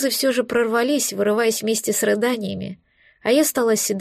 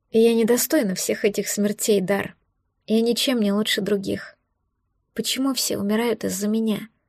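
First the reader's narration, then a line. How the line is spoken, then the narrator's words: Quiet question. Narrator (Russian): Тихо спросила я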